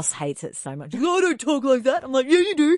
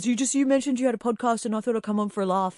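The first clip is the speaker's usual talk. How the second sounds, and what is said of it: Put-on generic bro man voice. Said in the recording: “my impersonating man voice? ... It's your universal bro voice.”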